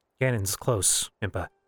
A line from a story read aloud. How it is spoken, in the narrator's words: he said, lowering his voice